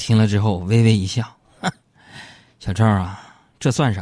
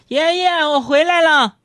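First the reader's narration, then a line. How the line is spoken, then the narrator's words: Little girl shouting. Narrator (Chinese): 小萝莉 在楼下就大叫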